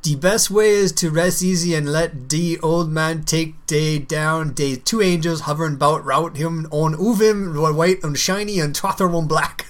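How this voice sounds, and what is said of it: Reading in a character's accent. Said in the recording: “were you putting on the accent ... I always make accents based on what I perceive the character to be ... hearing that put me in a character's, like, you know, like, in his accent”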